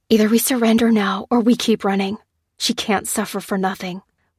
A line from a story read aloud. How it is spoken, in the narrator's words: whispered Lucy to Lopez